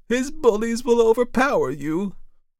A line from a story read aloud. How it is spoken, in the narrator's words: cried